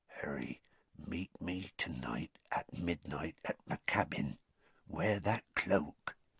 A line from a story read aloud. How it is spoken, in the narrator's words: Hagrid said in a whisper so low that only Harry could hear it